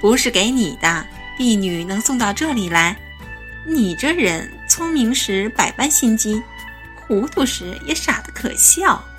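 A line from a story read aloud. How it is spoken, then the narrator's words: Laughing. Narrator (Chinese): 红姑笑道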